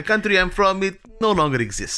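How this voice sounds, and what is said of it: Put-on Eastern European accent. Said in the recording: “Eastern European ... my accent”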